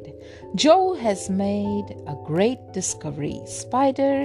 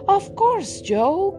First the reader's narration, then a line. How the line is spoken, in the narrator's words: cried the keeper